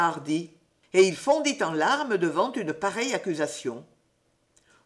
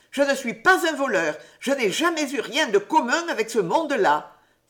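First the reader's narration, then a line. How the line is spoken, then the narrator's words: Indignant exclamation. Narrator (French): s'écria Hardy, indigné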